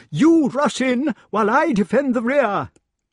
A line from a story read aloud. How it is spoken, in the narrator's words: cried the king